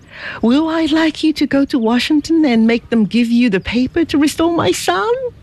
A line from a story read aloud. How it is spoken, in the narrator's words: cried he